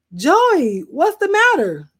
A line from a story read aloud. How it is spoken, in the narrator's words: I cried